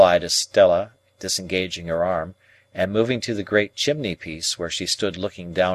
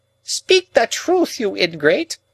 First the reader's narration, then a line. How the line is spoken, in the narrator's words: cried Miss Havisham, passionately